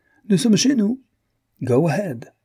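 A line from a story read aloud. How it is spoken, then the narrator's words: Exclaiming. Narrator (French): s'écriait Bernière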